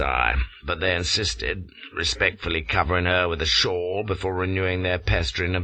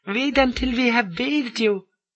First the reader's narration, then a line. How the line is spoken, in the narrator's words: giggles one of the houris